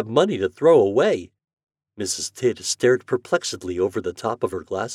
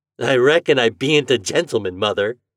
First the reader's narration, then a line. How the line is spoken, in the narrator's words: replied Homer with his jolly laugh